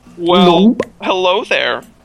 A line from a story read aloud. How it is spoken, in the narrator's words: he said nervously